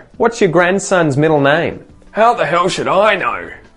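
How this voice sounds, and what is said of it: Grumpy old man voice. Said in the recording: “my grumpy man impersonation.”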